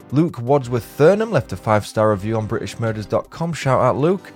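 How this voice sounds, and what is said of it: Pleasant regional English accent. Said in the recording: “Easy to listen to your wonderful accent”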